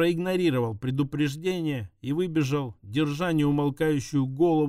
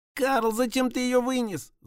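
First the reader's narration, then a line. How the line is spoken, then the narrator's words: Wailing shout. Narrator (Russian): завопила Пончик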